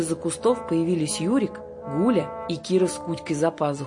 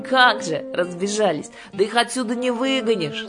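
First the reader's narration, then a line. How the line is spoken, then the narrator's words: Speaking, then laughing. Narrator (Russian): сказала Кира и засмеялась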